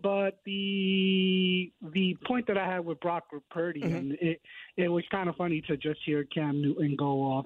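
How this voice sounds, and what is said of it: Hoarse, raspy voice. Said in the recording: “you're a little hoarse tonight ... with the pipes ... You got some congestion? ... a little raspy”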